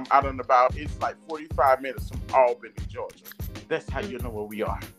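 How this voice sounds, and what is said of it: Southern Georgia accent. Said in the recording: “with my accent and living in LA, people gave me everywhere but Georgia ... I could see maybe a little Louisiana because of our accent”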